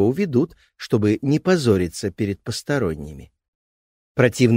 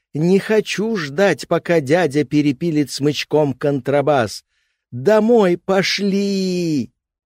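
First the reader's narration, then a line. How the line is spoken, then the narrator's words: Hysterical child's wail. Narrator (Russian): плохой мальчик легко устроит истерику завопит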